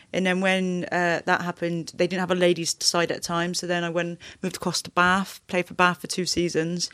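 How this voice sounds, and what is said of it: Bath accent. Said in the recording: “the best Bath accent”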